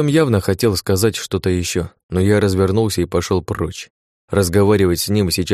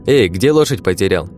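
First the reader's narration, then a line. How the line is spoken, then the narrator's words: Cheerful shout. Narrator (Russian): весело крикнул один из них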